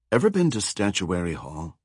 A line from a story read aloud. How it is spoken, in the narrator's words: Kurt whispered, leaning close to Joe's ear